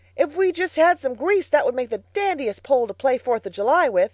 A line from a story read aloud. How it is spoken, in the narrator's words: he shouted